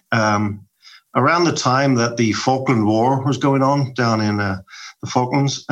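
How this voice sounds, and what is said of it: Irish accent. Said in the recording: “when they heard my accent ... a little Irish guy at a party”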